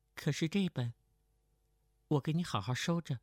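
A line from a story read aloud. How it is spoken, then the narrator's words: Flat, indifferent tone. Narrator (Chinese): 程灵素淡淡的道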